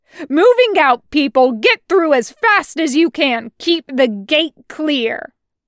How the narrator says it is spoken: he snaps

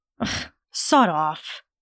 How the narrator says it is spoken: he muttered coldly

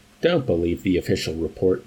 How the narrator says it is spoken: Yusarian advised dryly

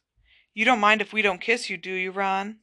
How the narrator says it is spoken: said Fred, in a falsely anxious voice

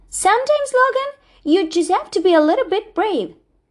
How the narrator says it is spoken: shouted Luna

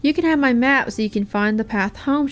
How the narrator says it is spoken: said kindly

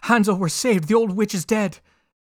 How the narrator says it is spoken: Gretel ran straight to Hansel, opened the pen, and cried out

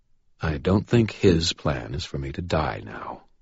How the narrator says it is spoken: he replied calmly

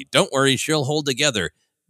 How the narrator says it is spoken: Han says loudly

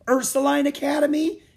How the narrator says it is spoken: exclaimed Annie

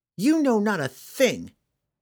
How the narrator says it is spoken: Catterby spat in his face

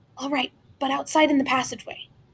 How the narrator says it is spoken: frowned, then whispered

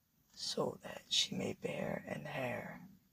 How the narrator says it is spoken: whispers

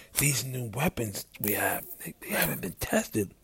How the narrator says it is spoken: he leans in to whisper

